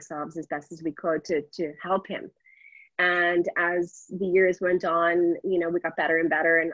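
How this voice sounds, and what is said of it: Usual voice. Nothing is said of it.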